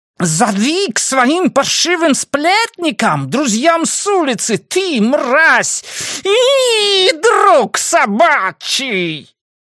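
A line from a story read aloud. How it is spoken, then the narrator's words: Shrieking crowd. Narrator (Russian): визжали другие люди, главным образом, я полагаю, при виде крови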